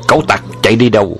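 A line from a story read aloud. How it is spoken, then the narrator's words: Loud shout. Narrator (Vietnamese): Mã Khu hai người hét lớn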